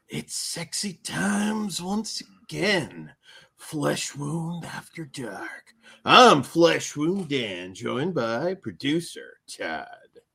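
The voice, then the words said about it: Put-on sultry sexy voice. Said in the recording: “My sexy voice.”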